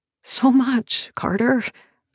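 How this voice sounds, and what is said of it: Whispered line. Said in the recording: “I whisper.”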